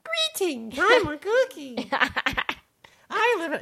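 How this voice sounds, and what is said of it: High-pitched girly character voice. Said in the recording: “你不用这么用这么尖的，你用你的女生的声音 ... That is my girl voice.”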